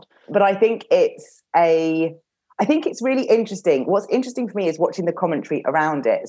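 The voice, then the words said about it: Unwell, odd-sounding voice. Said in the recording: “I've not been very well. So if I sound a bit strange, then that's why my voice is a little odd.”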